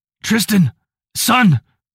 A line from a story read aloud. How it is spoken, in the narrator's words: Rick called out with a pain in his voice